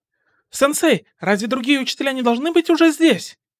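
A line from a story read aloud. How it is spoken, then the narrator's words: Shouted. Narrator (Russian): крикнул Изуку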